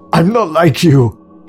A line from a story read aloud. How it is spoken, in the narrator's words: he screamed